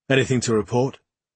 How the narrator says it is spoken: asked in a less severe tone

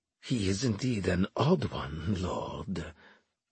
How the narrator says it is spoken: Armel murmured

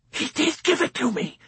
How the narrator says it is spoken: the chaplain hissed in a whisper that was both fierce and fearful

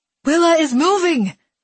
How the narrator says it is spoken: someone in the crowd yelled

